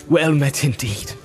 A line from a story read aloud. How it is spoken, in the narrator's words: he said